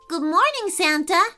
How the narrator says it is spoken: said Bryant cheerfully

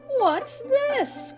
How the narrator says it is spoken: cried Donald Duck

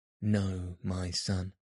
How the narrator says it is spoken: he replied

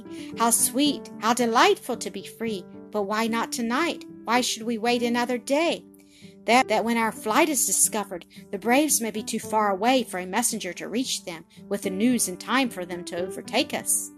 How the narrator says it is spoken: cried, in ecstasy

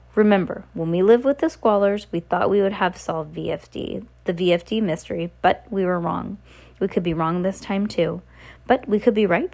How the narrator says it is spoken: Violet said

